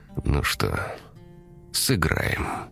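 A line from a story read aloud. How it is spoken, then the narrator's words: Quiet, to himself. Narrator (Russian): тихо сказал сам себе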